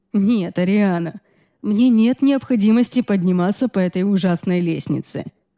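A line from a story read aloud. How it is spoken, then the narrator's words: Chuckling. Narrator (Russian): хохотнул он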